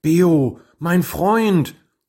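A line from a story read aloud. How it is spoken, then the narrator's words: Pleading. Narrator (German): flehte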